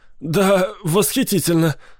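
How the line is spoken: Shuddering, forced out. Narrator (Russian): содрогнувшись, выдавил Арнольд

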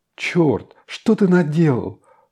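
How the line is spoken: Exclaimed. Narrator (Russian): воскликнула Маша

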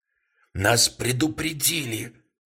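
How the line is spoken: Choked, strained voice. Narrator (Russian): проговорил Гуокер сдавленным голосом

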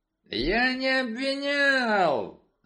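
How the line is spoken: Yelled. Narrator (Russian): заорал инспектор Крэмер

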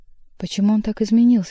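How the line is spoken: Quiet question over wind. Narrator (Russian): спросила тихо Маргарита под свист ветра у Воланда

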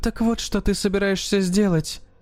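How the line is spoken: Whisper. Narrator (Russian): прошептала она

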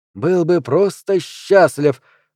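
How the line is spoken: Exclamation. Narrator (Russian): воскликнул мистер Шейп

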